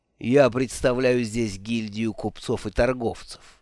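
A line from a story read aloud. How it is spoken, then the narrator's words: Calm reply. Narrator (Russian): спокойно ответил Рерпф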